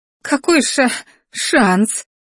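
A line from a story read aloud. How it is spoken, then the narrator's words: Stammering sob, woman. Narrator (Russian): заикаясь, всхлипнула артефакторша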